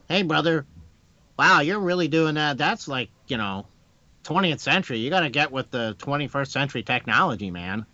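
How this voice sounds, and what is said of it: Imitates another person's voice. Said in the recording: “I did this impersonation for my wife, and Ben's like, "Wow, you did that guy spot on."”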